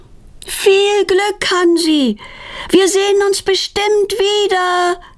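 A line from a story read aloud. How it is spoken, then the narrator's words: Calling after. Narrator (German): ruft Petronella ihm nach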